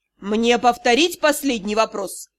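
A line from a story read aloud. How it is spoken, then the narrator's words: Icy inquiry. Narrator (Russian): ледяным тоном осведомился Риан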